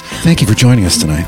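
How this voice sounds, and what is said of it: NPR-style radio host voice. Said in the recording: “Like the NPR? ... The NPR voice.”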